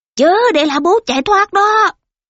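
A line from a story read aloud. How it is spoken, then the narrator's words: Crowd of soldiers shouting. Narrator (Vietnamese): Ba quân cùng gào thét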